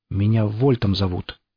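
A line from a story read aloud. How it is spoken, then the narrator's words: Timid. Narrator (Russian): робко произнес сталкер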